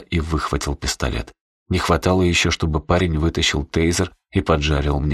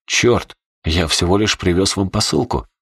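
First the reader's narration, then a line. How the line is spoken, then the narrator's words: Startled exclamation. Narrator (Russian): воскликнул Верзила, увидев пушку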